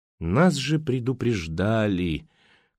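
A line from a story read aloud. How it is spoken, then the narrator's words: Surprised mumble. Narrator (Russian): как будто удивленно пробормотала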